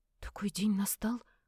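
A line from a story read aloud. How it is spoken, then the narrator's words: Trembling voice. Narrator (Russian): дрогнувшим голосом спросила я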